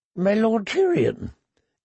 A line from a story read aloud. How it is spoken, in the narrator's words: came out in a squeak, punctuated by a nervous giggle